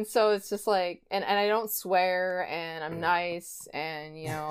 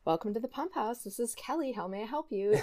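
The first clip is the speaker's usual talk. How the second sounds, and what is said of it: Polite customer-service phone voice. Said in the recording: “the people that know me call it my phone voice”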